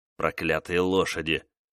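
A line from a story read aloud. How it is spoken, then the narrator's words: Grumbling. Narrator (Russian): ворчал он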